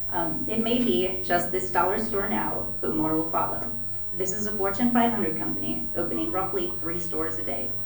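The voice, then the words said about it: Slightly shaky voice. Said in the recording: “my voice is probably a little shaky”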